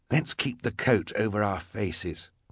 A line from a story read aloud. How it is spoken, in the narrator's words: Klaus whispered to his sister